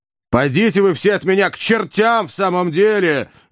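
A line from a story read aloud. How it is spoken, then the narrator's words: Rude shouting. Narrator (Russian): грубо закричал Иван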